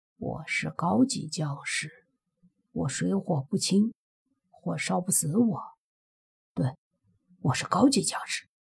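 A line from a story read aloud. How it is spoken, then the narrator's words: Puzzled muttering. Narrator (Chinese): 莫凡疑惑着，随即嘀咕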